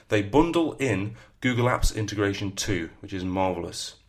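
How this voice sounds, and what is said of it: Northern English accent. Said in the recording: “I think it's my northern accent.”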